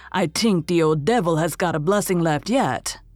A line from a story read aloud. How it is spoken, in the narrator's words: growled Andrew